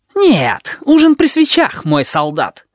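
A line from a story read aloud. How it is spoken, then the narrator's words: Snapping retort. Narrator (Russian): огрызнулся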